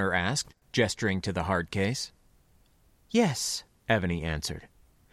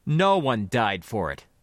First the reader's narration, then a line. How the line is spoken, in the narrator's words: he replied sharply